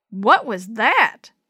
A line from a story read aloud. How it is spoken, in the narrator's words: Shorty yelled